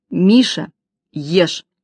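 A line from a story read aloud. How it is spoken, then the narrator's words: Stern command. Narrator (Russian): строго велела Маня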